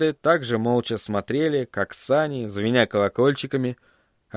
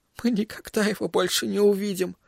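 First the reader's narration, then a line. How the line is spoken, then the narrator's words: Sobbing. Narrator (Russian): всхлипнула она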